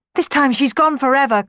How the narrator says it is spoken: cried

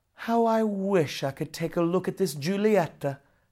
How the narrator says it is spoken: sighed Quicksilver, Romeus's best friend

